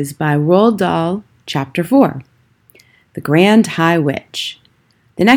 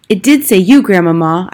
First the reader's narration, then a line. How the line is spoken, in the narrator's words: I cried